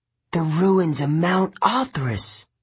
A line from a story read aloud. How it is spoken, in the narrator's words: Thalia whispered in awe